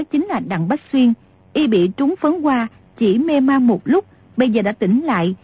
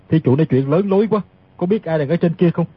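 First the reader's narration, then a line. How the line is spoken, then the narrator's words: Wry smile. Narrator (Vietnamese): Tiết Thần Y cười nhạt nói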